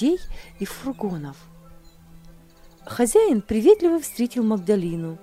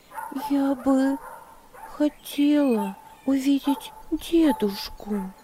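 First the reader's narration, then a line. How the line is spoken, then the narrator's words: Timid. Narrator (Russian): робко ответила Магдалина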